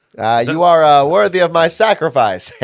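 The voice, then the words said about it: David Letterman impression. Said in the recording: “That was my David Letterman impression.”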